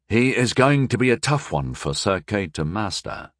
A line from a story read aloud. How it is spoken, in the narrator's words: murmured Sire Sigalan thoughtfully